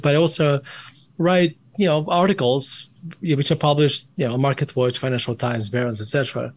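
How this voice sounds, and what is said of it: Russian accent. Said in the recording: “my accent? ... I was born in Russia”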